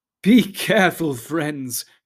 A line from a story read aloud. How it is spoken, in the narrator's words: cried Gildor, laughing